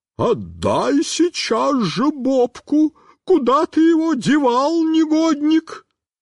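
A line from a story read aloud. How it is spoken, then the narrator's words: Inhuman screaming woman. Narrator (Russian): Тетенька стала кричать нечеловеческим голосом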